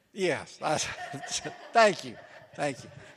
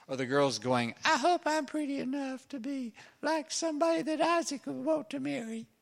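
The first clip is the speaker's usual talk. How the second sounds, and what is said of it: Put-on young girl's voice. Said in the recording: “that was my girl voice.”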